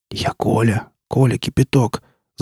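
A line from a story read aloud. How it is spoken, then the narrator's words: Whispering. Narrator (Russian): зашептал сосед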